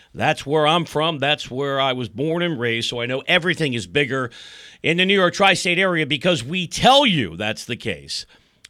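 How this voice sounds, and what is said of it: East Coast New York accent. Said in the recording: “if you can't tell, because I've spent 35 years trying to lose the East Coast accent.”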